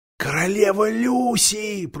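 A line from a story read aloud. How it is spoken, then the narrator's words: Whisper. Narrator (Russian): прошептал Даффл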